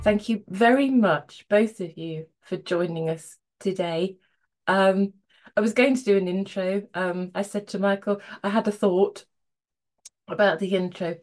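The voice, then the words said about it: Croaky voice. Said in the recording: “my voice is a bit kind of croaky this morning”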